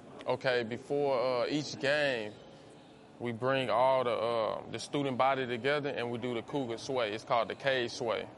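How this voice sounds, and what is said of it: Texas accent. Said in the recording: “I noticed that you have an accent. ... I'm from Texas.”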